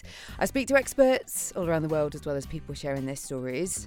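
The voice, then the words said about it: British accent. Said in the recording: “I'm based in the UK, you can probably tell by my accent.”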